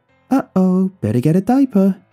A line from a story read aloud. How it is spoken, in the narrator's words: it giggled and said